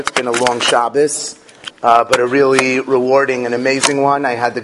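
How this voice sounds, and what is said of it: Sore, strained voice. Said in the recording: “I apologize if my voice is a little sore.”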